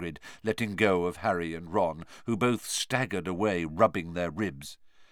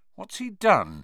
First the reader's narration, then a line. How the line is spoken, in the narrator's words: said Harry nervously